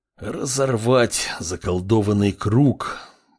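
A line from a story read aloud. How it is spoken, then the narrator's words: Through gritted teeth. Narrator (Russian): процедил калека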